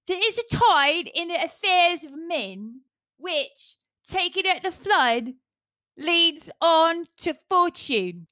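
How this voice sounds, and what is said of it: Deliberately bad put-on Cockney accent. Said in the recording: “Maybe I should do it Cockney ... Let's see if I can do a really shite Cockney accent.”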